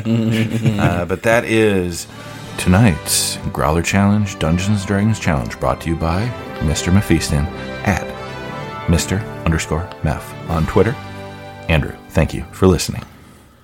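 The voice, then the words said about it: Fake radio announcer voice. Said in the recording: “It's my fake radio voice ... This is my radio voice”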